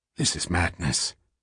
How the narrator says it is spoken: muttered

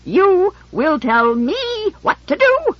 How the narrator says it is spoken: shrieked, vibrating with outrage

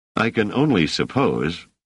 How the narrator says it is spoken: said Selden dryly

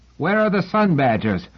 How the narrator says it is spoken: Someone shouted

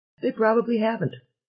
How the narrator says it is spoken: agreed Selene cheerfully

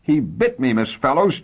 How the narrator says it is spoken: Jerry cried in rage

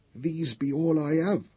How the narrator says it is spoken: she began miserably

